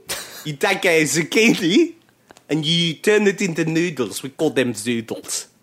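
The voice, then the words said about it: Put-on accent. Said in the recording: “I can't do this in an accent ... I've completely lost my accent”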